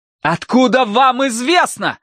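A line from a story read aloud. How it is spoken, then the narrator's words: Shout. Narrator (Russian): закричал Тай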